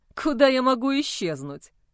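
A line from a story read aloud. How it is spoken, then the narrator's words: Short chuckle. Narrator (Russian): хохотнул Джо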